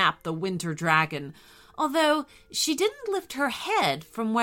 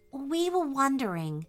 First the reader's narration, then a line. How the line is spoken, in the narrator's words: asked Grace softly